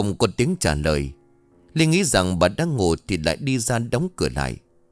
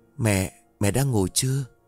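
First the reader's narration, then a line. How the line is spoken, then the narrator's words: Soft question. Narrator (Vietnamese): cô khẽ hỏi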